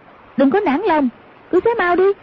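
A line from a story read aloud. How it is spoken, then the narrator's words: Shouting. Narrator (Vietnamese): Hoàng Dung quát lên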